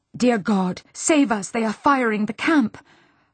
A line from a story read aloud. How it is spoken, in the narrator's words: her nurse gasped